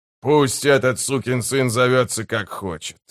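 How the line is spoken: Muttering. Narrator (Russian): пробормотал Гесслер

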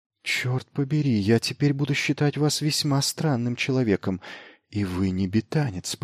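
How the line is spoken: Muttered. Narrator (Russian): пробормотала она

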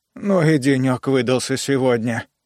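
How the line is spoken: Sighing. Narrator (Russian): вздохнул техник

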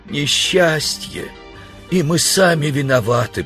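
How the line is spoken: Groaned. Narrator (Russian): простонал человек

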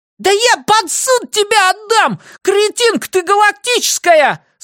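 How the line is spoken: Shrieking again. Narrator (Russian): снова завизжал тип

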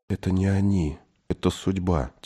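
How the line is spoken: Quiet boy. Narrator (Russian): тихо сказал мальчик

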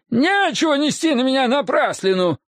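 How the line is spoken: Yelling. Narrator (Russian): орал между тем бармен

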